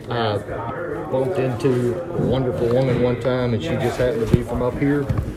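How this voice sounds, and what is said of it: Louisiana Southern American accent. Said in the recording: “Why do you have a funny accent? ... I grew up in Louisiana.”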